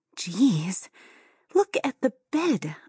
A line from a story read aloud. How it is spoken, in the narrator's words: I gasped